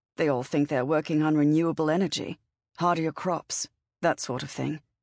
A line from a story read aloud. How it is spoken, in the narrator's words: Charlotte told Cora, her voice heavy